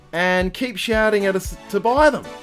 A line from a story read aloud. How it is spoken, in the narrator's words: one kid yelled